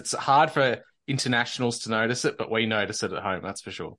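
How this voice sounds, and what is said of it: Southern Australian accent. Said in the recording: “Australians from the South are a bit more intellectually sounding like myself”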